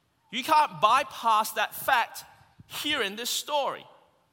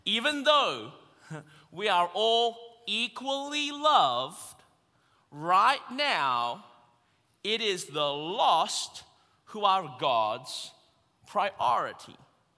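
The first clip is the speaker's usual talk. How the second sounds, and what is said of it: Very slow speech, put-on American accent. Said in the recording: “say that again really, really slowly in my best American accent”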